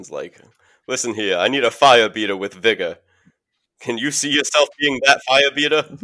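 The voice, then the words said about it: Exaggerated put-on accent, badly done. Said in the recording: “that terrible accent ... why is this always the go-to the accent?”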